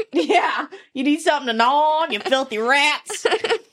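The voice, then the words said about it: Put-on accent. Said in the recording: “I like the accent.”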